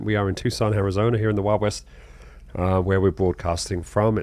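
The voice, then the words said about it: Congested voice. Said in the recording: “I'm still congested”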